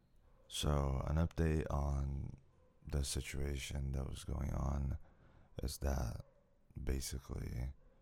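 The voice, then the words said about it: Strained, fading voice. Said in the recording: “I'm kind of losing my voice.”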